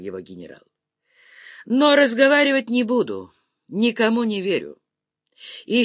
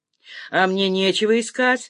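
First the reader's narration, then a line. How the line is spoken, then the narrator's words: Short laugh. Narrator (Russian): хохотнул Сыч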